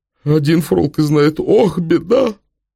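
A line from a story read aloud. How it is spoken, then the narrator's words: Sobbing. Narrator (Russian): Пулектов всхлипнул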